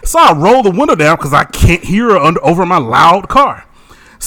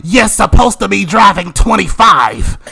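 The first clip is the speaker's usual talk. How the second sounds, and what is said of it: Heavy put-on New York accent. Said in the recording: “she has this heavy New York-ass accent”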